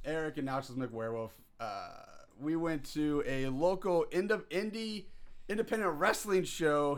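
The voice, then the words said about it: Hoarse, slightly strange voice. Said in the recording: “My voice is a little hoarse tonight. A little strange.”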